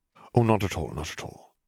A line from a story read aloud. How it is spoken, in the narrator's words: murmured Dumbledore